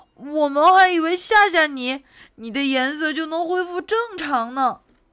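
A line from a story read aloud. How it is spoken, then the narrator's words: Shouting. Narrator (Chinese): 猴子和比尾蒙冲变色龙大喊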